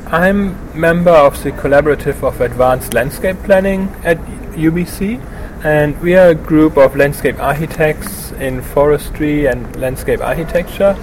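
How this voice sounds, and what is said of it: German accent in English. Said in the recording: “So that's not a Vancouver accent? ... I'm originally from Germany.”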